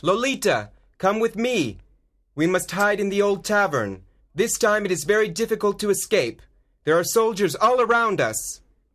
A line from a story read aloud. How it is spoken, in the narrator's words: He shouts